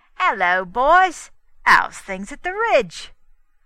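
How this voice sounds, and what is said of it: Smooth, oily Cockney accent. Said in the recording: “the smooth, oily, and inviting voice ... called out in his Cockney accent”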